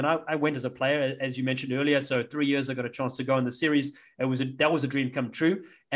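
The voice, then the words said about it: South African accent. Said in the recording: “I have a South African accent ... nobody here knows what that accent is. Nobody knows. What part of Britain are you from?”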